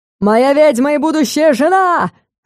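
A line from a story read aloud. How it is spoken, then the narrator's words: Enraged yelling. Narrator (Russian): вопил разъяренный вампир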